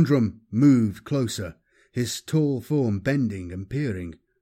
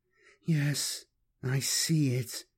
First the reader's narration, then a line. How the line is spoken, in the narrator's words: Angelica murmured